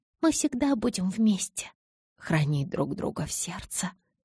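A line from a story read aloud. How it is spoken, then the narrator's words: Barely audible whisper. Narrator (Russian): поправила я едва слышным шепотом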